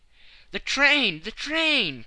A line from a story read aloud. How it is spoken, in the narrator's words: cried he